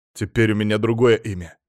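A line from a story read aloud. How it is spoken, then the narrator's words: Man snorting. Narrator (Russian): фыркнул мужчина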